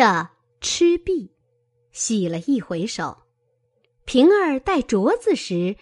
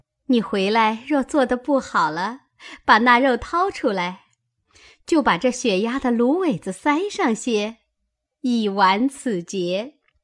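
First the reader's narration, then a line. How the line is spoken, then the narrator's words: Laughing. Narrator (Chinese): 宝钗笑道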